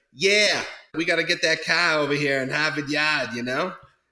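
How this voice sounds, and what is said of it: Put-on Boston accent. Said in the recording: “Boston accent”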